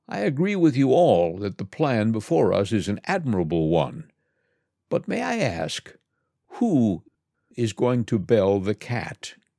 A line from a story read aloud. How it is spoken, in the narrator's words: an old mouse got upon his feet and said